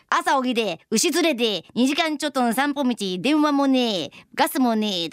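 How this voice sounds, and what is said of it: Practiced Tohoku rural dialect accent. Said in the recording (Japanese): “幾田の訛り方上手でしたね ... 結構ズーズー弁の東北なまりで、 ... 私相当練習したんですよ ... だから今自然に言えたんや”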